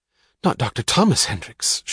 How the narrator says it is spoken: she gasped, with the involuntary rudeness of a child

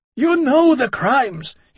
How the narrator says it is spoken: he roared

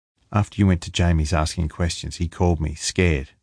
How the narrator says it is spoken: Lee said

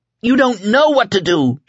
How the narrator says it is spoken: she screamed at them

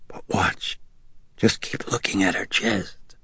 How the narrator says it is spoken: whispered

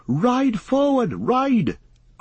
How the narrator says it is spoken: cried Glorfindel to Frodo

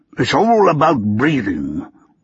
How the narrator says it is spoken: Lord Davenport said curtly

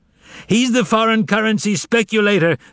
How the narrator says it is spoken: the audience screamed

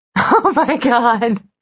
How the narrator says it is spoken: she said, laughing

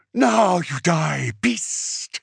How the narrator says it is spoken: Zuzuli snarled

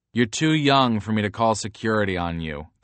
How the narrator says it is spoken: the guy says

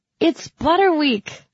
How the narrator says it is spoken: I exclaimed

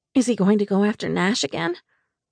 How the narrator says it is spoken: Lucian sighed

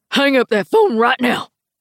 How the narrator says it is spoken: Frank growls

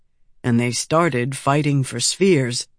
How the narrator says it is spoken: Red softly added

